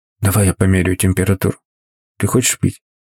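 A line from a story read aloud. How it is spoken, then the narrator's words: Whisper. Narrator (Russian): прошептал он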